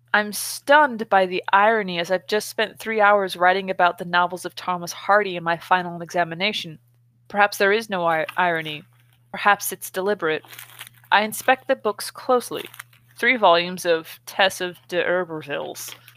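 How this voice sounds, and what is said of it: Californian American accent. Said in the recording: “my Californian accent mangle the shit out of that name”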